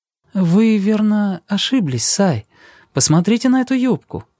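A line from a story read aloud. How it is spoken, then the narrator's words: Embarrassed. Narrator (Russian): Джулия сказала смущенно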